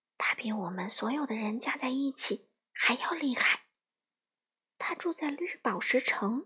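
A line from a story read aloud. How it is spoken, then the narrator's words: Low, hushed voice. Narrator (Chinese): 北方女巫压低声音回答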